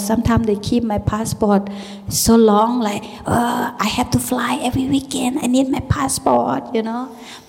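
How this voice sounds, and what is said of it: Speaks English with foreign accent. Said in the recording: “very easy English, and you can hear my accent.”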